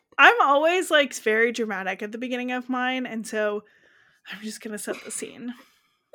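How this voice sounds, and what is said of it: Out of breath. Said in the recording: “out of breath”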